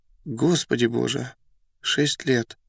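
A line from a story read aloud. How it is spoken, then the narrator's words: Agitated whisper, young man. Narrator (Russian): молодой человек с не вполне понятным волнением прошептал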